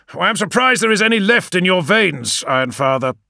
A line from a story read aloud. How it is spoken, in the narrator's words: snapped Medusen